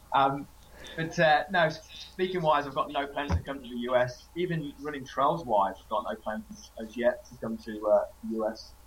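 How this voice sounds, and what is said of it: Australian-sounding accent. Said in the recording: “you probably think I sound Australian”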